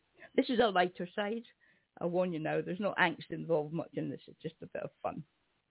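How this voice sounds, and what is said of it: Strained, failing voice. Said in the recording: “my voice is going a little bit”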